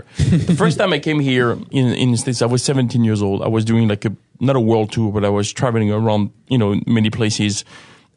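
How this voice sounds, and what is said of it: French accent. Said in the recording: “So obviously I have an accent, so I'm not from here ... coming from an atheistic country like France”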